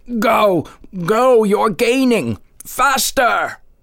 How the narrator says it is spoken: his voice would howl

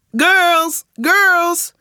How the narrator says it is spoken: shouted Mr

